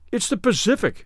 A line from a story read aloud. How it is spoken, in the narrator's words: they cried at last